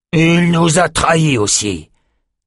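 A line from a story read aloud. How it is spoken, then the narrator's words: Growled. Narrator (French): grogna l'homme au chat à neuf queues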